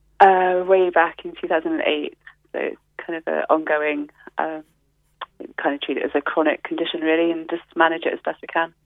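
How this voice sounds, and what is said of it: English Nottingham accent. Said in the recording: “I can hear by your accent, you're not a native of West Cork ... where in the UK? ... Nottingham”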